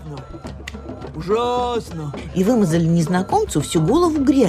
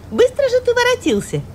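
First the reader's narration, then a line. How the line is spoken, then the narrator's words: Exclaimed. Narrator (Russian): воскликнула Даффи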